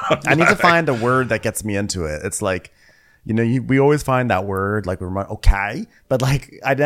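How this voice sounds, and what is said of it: Usual voice. Nothing is said of it.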